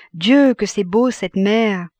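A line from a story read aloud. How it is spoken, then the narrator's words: Long untroubled sigh. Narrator (French): Madame Rosémilly répondit avec un soupir prolongé, qui n'avait cependant rien de triste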